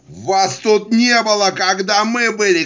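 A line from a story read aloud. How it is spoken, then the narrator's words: Rear admiral shouting. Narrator (Russian): кричал контр-адмирал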